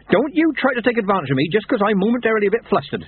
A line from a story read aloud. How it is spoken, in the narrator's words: she snapped